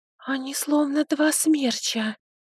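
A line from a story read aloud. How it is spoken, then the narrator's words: Whispered. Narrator (Russian): прошептала Лярия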